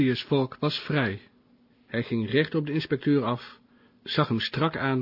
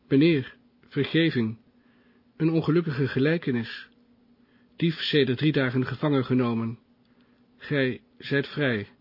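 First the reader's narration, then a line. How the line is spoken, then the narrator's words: Stuttering. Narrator (Dutch): stotterde hij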